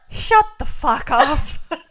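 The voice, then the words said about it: Put-on Belfast accent. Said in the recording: “Is that your Belfast accent? ... Thought it was very good. Very well done.”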